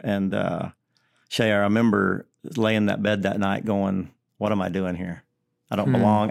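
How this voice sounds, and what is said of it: Deep country accent. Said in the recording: “I have this really deep country accent”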